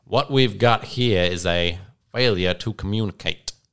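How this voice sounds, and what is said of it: Put-on accent quoting film line. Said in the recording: “You're doing some good accents today. That was good.”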